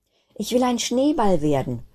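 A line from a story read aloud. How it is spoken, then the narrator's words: Calling out. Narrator (German): rief Kristallinchen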